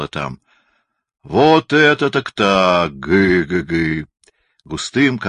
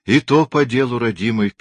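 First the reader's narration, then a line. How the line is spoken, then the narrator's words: Sad old woman. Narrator (Russian): печально отвечала старушка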